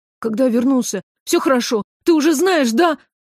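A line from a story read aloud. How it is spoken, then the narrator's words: Frightened question. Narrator (Russian): спросил он испуганно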